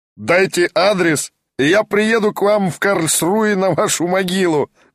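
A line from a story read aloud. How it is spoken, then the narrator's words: Roaring laughter, German man. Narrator (Russian): безмерно расхохотался немец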